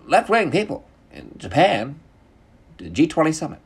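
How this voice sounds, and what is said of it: Bad Tucker Carlson impression. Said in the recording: “bad Tucker Carlson impression”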